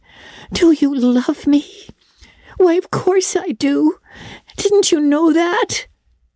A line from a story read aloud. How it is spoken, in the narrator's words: cried Anne